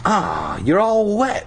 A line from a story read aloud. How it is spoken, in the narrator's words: Kara said, sneering